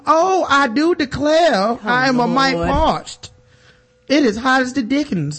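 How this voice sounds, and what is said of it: Paula Deen impression, exaggerated southern accent. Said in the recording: “Paula Deen ... she don't even have a southern accent ... the cameras are back on”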